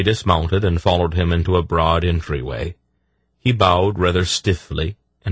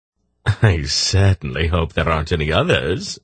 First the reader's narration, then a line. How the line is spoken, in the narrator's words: Silk laughed